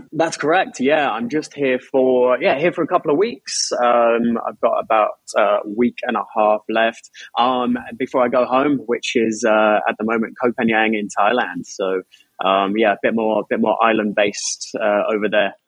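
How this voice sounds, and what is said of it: Australian or New Zealand-sounding accent. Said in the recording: “I'm guessing Australia, what part of Australia are you from? ... Are you not Kiwi? ... I picked up the accent and it just never disappeared. I've spent about 2 years in Australia and 2 years in New Zealand”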